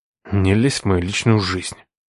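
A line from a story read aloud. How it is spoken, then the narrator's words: Through clenched teeth. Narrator (Russian): процедил сквозь зубы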